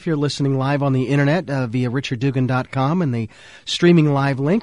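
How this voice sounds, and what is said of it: Voice sounds ill. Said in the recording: “You can probably hear in my voice, yes, I'm kind of suffering through something”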